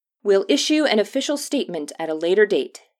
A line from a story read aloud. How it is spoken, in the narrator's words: Harold called out